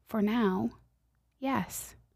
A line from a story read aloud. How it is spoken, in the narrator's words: Gently, God speaks to my heart and answers